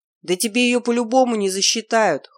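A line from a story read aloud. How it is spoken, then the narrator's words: Snort. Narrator (Russian): хмыкнул рогатый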